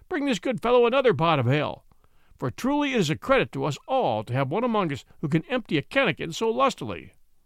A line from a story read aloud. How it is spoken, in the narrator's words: cried the peddler